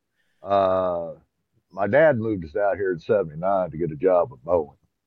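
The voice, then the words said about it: Southern Illinois accent. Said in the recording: “You might be able to tell by the accent I ain't from here. ... But I'm originally from Southern Illinois. ... Because you can hear it.”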